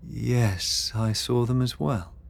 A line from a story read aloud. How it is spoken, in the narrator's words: Beatrix murmured